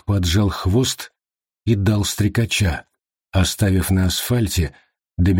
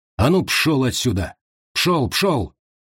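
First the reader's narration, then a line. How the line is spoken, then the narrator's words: Shouting at wolf. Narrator (Russian): Дэвид сделал шаг к волку, хлопнул в ладоши и крикнул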